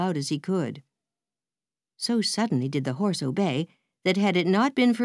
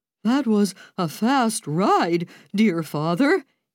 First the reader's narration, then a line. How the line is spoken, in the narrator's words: he exclaimed